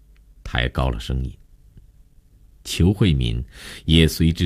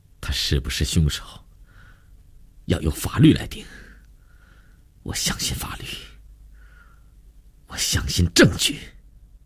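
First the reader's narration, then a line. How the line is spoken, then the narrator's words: Through gritted teeth. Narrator (Chinese): 林信成也咬牙切齿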